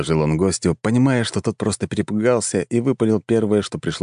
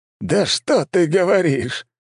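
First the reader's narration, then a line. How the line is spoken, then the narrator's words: Loud laughter. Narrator (Russian): расхохотался Валомарт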